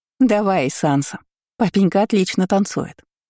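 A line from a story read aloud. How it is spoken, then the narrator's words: Giggling. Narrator (Russian): хихикнула Лори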